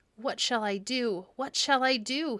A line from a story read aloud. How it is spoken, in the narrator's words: he cried